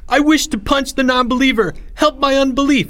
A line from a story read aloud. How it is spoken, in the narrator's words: shouted the same temple slave